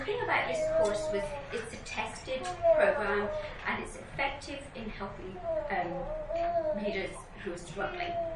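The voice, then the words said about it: English accent. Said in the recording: “as you can tell from my accent comes from England, so I had a little problem with the American vowels”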